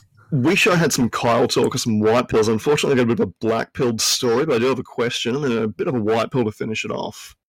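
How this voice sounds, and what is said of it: Australian accent. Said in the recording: “Down under... I suppose the accent”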